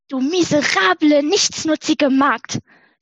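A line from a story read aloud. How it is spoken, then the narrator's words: Angry shouting farmer. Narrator (German): schrie der Bauer zornig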